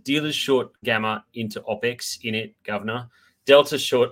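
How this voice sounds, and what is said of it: Half-hearted imitation of Chris Weston's accent. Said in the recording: “Chris Weston, friend of the show from Pepperstone ... I'll sort of half do his accent.”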